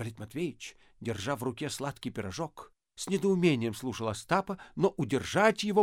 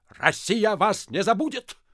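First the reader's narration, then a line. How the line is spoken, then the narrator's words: Barked. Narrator (Russian): рявкнул Остап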